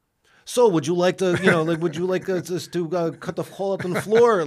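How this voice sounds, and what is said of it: Put-on foreign accent. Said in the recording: “it's a good accent”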